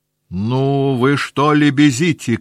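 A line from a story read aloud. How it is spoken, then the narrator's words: Shouting. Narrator (Russian): крикнула она на девок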